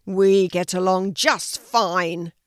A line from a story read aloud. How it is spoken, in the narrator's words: roared the lion